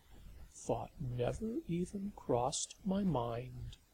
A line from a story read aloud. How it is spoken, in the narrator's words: Lavinia said solemnly, but with such tenderness that there was no sting in her sarcasm